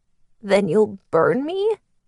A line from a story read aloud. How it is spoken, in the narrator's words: She laughed, but it was raspy, and broke up when she started coughing